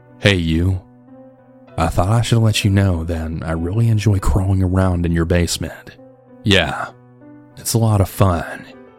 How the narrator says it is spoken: calmly

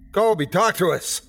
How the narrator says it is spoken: shouted, praying that it was him who had fired that last shot

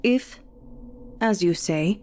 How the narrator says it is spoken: he says in a thick German accent

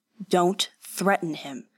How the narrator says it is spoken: Kanishi snapped

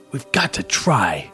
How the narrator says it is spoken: Casey whispered hoarsely to Cody and Sasha

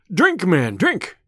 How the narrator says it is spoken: cried Robin

